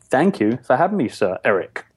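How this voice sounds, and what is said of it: English accent. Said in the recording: “I'm messing you up already with my accent ... I'm thinking of the whole English thing.”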